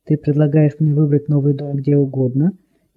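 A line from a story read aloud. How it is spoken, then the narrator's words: Laughing, quietly joyful. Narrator (Russian): Я засмеялась, тихо радуясь всему на свете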